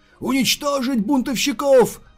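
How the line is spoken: Yelling. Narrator (Russian): заорал Сокун Шоу

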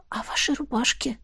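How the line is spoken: Whisper. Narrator (Russian): перешла на шепот я

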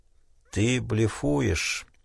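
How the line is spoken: Very weak voice. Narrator (Russian): сказал Тунгата совсем слабым голосом

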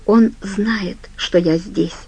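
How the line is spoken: Whispered. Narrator (Russian): прошептала она

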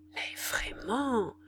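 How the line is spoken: Muttered through teeth. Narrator (French): murmura entre ses dents la grande femme

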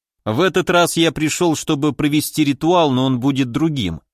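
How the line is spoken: Plain. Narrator (Russian): сказал

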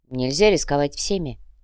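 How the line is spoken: Calm reply. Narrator (Russian): спокойно ответил Фердинанд

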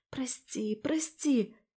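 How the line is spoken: Whispered apology. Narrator (Russian): прошептала я

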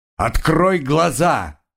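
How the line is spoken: Sudden loud carrying bark. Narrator (Russian): вдруг рявкнул Айра, и голос его перелетел с берега на берег

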